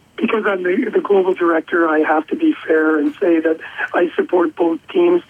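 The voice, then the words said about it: Canadian accent. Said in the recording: “given your accent, you're going to be backing Team Canada”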